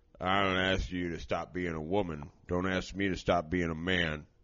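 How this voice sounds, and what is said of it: Poor imitation of another person's voice. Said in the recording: “That's a terrible Sylvester Stallone impression”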